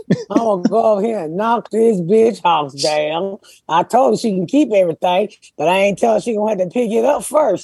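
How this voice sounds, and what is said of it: Put-on white country accent. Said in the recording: “I love your white country accent. It's funnier than you do my people.”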